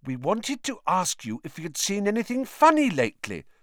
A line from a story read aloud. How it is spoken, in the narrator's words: said Hermione quickly